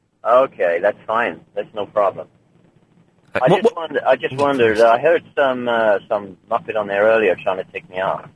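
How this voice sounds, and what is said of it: Bad Jack Bauer character impression. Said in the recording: “That is the worst, Jack. That Jack Bauer, is worse than your Scottish accent, and that's saying something.”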